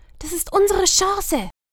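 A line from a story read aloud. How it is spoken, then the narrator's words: Quiet croak. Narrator (German): Vika krächzte leise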